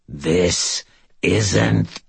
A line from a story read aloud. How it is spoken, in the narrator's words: he growled